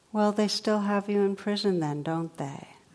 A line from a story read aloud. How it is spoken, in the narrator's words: the first one looks at him kindly and says